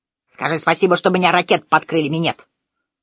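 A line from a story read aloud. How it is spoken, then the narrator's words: Parrot shouting. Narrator (Russian): закричал попугай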